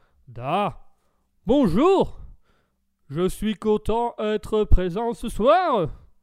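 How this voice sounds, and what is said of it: Put-on Russian accent. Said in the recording (French): “un petit accent russe”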